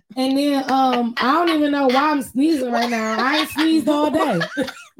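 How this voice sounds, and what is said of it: Hoarse, nearly lost voice. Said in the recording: “My voice is gone because I was being loud on Sweetest Day.”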